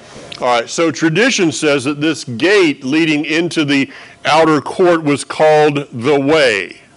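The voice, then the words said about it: Southern US accent. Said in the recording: “if you haven't picked up on a little accent I got here, you know, if you haven't picked up that I'm from the south”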